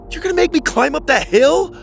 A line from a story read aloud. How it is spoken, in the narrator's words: Preston shouted